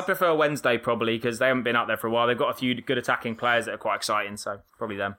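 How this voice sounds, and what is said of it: Put-on Australian accent. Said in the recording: “your racist Australian accent”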